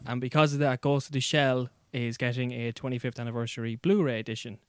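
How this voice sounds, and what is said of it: Irish accent. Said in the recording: “the Irish accent”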